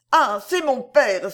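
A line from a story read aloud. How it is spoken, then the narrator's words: Exclamation. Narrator (French): s'écria-t-elle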